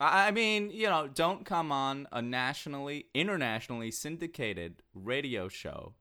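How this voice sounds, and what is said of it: Usual voice. Nothing is said of it.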